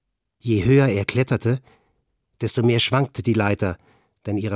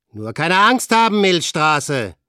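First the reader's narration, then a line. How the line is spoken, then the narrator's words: Calling out. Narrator (German): rief Frank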